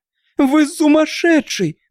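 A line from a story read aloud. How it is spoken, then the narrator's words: Woman screaming. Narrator (Russian): закричала она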